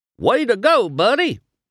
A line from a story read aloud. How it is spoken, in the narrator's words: Mater hollered